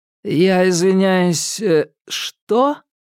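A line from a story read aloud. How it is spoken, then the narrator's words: Drawling. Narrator (Russian): протянул Ньют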